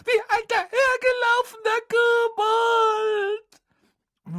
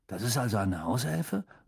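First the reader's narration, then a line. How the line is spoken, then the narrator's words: Murmured. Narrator (German): murmelte Ron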